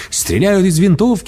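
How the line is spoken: Man shouting. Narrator (Russian): закричал мужчина

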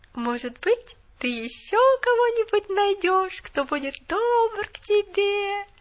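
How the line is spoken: Sing-song drawl. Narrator (Russian): Нараспев протянула она

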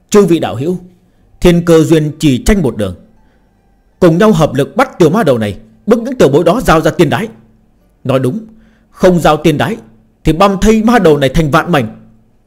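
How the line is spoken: Roar. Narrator (Vietnamese): gầm lên

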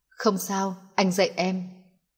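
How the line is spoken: Soft, close to ear. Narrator (Vietnamese): Nelson giọng điệu ở bên tai cô nhẹ nhàng

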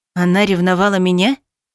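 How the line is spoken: Gloomy. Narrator (Russian): мрачно уточнил Киран

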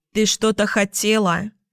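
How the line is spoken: Indifferent clerk-like tone. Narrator (Russian): уточнила Джули безразличным тоном, будто была продавщицей в кассе железнодорожных билетов

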